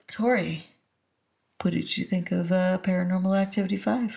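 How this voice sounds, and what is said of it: Game show host voice. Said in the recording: “I gotta use my game show voice”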